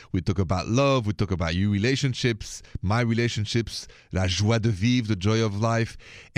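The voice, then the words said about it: French accent. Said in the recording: “the accent is French”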